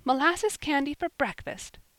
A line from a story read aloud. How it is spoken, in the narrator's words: cried Polly, laughing